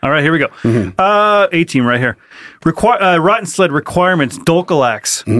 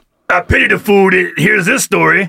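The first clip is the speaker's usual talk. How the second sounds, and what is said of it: Mr. T impression. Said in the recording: “Just call him, let's go with just Mr. T. ... Best impression you've done so far.”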